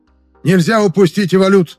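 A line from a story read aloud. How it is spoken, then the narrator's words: Nearly shouting. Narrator (Russian): почти выкрикнул Пракс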